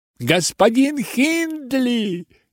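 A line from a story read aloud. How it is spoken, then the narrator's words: Shouting. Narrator (Russian): кричал наш священник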